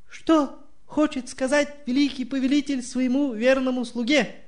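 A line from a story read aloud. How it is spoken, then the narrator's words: Trembling voice. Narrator (Russian): дрожащим голосом спросил Гаргулио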